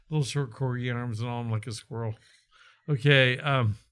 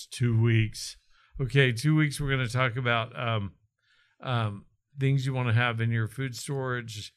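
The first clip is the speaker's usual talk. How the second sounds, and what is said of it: Put-on dad voice. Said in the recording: “dad voice”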